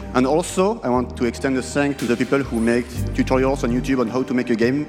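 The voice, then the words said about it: French accent in English. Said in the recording (French): “ce French accent”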